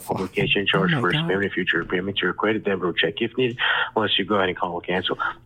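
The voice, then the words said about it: Very fast speech. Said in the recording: “you said it so fast.”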